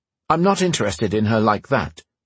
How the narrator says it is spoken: Roan said quickly

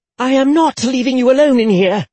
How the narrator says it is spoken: she snapped

